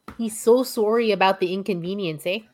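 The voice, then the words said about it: Exaggerated Canadian accent, Fargo-like. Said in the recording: “with his super Canadian accent, eh? ... That's a little more Fargo than Canadian.”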